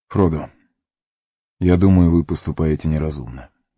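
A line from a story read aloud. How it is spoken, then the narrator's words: Gentle. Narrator (Russian): мягко сказал Фарамир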